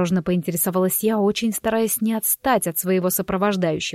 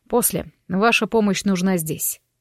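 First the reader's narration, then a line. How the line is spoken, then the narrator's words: Curt. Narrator (Russian): отрывисто бросил парень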